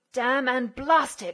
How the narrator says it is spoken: he grated through his teeth

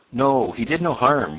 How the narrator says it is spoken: went on Tom, in a reassuring tone

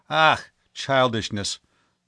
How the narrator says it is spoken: the old man exclaimed impatiently

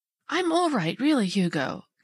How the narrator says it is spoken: faltered

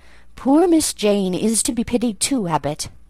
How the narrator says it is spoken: Bessie, when she heard this narrative, sighed and said

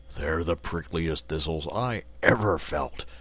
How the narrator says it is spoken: grumbled the Lion

